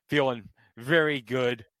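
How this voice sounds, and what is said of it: Sarcastic delivery. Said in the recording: “I say that sarcastically”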